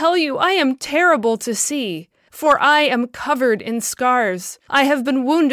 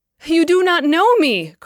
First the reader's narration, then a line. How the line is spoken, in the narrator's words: cried the woman in a piercing tone